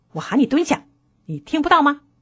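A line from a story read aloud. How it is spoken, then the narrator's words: Angry roar. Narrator (Chinese): 她怒吼道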